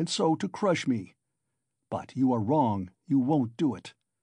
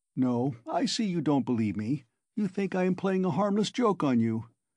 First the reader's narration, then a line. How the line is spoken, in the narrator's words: Porfiry began again, getting more and more lively, chuckling at every instant